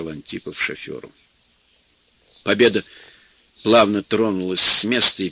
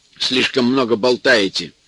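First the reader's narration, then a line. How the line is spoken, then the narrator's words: Stern remark. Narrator (Russian): строго заметил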